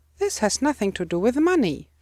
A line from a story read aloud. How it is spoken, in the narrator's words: snapped